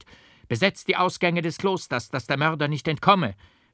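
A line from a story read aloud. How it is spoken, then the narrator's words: Loud call. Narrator (German): rief Leonardus mit lauter Stimme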